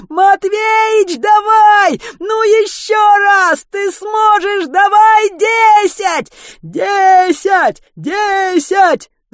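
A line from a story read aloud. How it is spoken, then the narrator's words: Many voices eagerly roaring. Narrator (Russian): С готовностью взревело множество голосов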